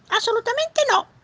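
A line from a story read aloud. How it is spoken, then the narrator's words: Beaver exclaiming. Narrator (Italian): esclamò il castoro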